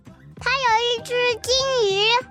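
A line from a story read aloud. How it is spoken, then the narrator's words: Loud child's shout. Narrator (Chinese): 妹妹大声嚷道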